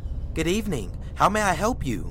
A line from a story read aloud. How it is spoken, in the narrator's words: I cheerfully said